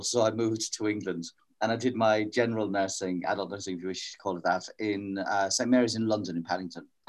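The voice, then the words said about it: Irish accent. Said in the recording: “I started my nurse training in the west of Ireland. And for those who are curious about the accent ... I actually have one.”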